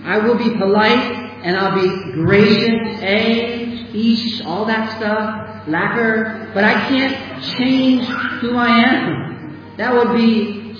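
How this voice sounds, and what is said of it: American accent. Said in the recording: “why haven't you changed your accent yet? ... I'm from America. I'm not South African.”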